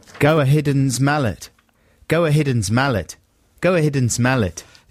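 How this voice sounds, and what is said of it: Put-on South African accent. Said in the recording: “you're saying go ahead and smell it in a South African accent”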